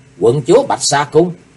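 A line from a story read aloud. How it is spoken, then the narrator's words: Stunned exclamation. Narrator (Vietnamese): Chí Tôn sững người kêu lên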